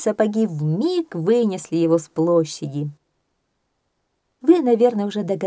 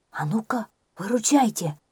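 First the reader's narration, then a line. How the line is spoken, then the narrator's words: Whisper. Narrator (Russian): казак Мамарыга прошептал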